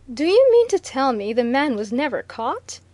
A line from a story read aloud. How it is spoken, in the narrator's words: exclaimed Viner